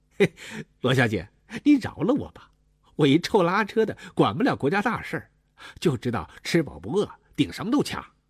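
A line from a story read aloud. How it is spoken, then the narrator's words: Laughing. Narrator (Chinese): 文三儿笑了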